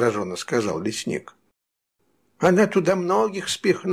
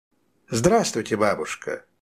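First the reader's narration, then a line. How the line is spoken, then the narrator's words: Cheerful guest. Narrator (Russian): весело произнес гость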